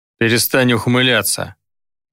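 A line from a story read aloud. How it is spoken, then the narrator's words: Grumbled. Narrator (Russian): буркнул Гидеон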